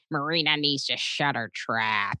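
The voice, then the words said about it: Imitates another person's voice. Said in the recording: “I do my ex-boyfriend Keith Robinson, who's a comedian ... I oftentimes impersonate him going”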